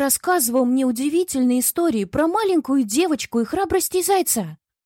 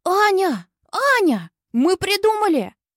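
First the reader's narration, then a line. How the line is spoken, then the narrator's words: Boys shouting over each other. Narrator (Russian): Наперебой кричали с улицы мальчишки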